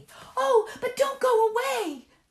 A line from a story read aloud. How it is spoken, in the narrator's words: they cried